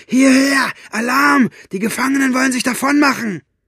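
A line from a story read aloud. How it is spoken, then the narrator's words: Roar. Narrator (German): brüllte Buster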